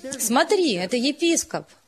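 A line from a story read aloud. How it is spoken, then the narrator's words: Excited girls. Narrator (Russian): Девочки взволнованно сказали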